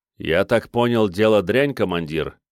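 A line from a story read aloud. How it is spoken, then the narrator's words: Calm question. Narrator (Russian): спокойно спросил бес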